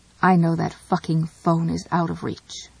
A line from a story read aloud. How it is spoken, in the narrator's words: she said